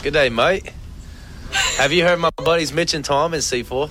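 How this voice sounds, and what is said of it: Attempted Australian accent sounding British. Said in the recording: “put on his best Australian accent ... I could do an Aussie accent ... I sound like I'm from London ... It does sound very British”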